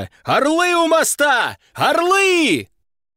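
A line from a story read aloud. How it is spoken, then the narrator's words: Roaring crowd of lions. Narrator (Russian): Львы взревели, старые и молодые, самки и самцы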